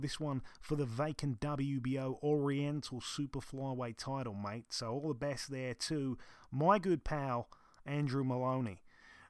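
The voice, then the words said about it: Put-on Australian accent. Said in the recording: “So I just did my Australian, probably not the best you've heard.”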